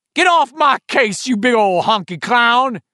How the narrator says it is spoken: he shouted

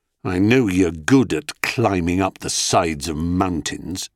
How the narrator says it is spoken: Zeus said, with what he hoped was icy sarcasm, but which emerged even to his ears as something more like sulky muttering

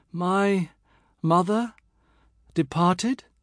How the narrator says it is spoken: And I feebly

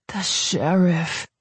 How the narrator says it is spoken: Captain America breathed

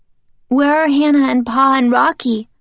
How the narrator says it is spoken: Charles cries and buries his face in his hands

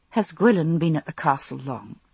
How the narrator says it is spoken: I asked Jamie in a low voice

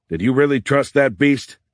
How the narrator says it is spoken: Beckham yelled back

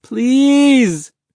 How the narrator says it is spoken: Mahmoud begged

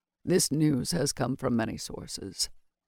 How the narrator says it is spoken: Nael said quietly

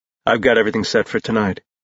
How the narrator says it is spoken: Jace said quietly

